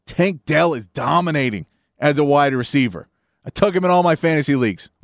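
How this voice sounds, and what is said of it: Strained, hoarse voice from yelling. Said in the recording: “I'm losing my voice already, yelling”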